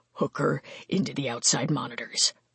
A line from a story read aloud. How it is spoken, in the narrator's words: Mark hissed